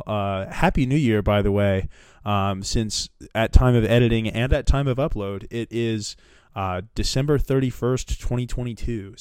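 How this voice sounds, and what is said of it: Congested, sick-sounding voice. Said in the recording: “Sorry about my voice here. I'm coming off of a little bit of a sinus infection”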